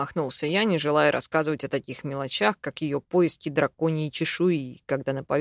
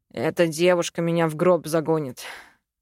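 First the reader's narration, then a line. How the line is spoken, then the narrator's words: Sighing. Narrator (Russian): вздохнул я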